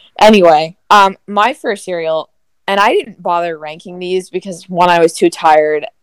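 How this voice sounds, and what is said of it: Usual voice. Nothing is said of it.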